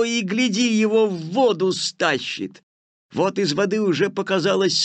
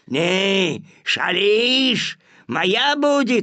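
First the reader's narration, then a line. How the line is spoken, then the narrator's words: Growling wolf. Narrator (Russian): зарычал волк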